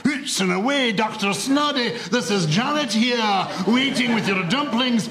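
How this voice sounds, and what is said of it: Poor put-on Scottish accent. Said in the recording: “my pathetic attempt at a Scottish accent”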